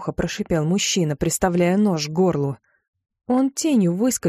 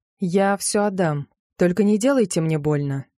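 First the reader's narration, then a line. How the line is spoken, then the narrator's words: Calm request. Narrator (Russian): попросила спокойным тоном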